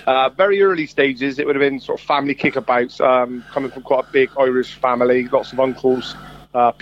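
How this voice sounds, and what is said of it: Strong Bristolian English accent. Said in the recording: “a very Bristolian accent”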